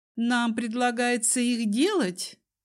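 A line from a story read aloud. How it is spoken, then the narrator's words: Tipsy laughing. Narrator (Russian): Дезмонд рассмеялся, пьяные чертики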